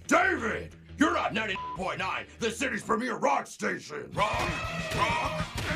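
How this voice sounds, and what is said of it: Heavy metal radio DJ voice. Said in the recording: “poses as a DJ for a heavy metal rock station ... his heavy metal radio voice impression”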